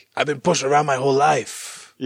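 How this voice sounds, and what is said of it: Put-on Mexican accent. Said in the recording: “That's a good Jack Black being Mexican... Accent.”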